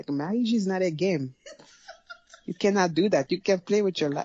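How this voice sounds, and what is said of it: Attempted Haitian accent, veering African. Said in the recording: “I can't even do a Haitian accent. ... You were going good there, and then you kind of veered a little African.”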